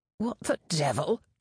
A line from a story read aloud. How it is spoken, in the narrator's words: John spluttered